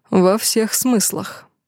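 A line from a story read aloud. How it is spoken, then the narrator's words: Snort. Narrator (Russian): хмыкнул я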